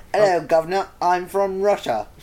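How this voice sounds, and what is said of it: Deliberately bad British accent. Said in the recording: “does bad accents ... always doing a really bad British accent, but saying he's from somewhere else ... Something like that.”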